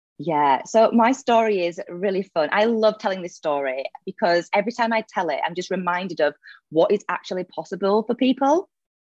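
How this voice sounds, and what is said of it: Leeds northern English accent. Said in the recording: “I'm originally from Leeds in the UK. You might notice the accent.”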